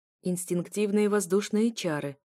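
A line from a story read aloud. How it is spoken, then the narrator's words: Approving growl. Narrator (Russian): рыкнул Эушелар, как мне показалось, одобрительно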